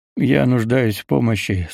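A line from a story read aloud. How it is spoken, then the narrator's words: Hoarse. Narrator (Russian): сказал я хрипло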